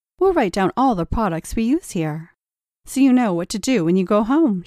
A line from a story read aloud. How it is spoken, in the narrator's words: she says, smiling brightly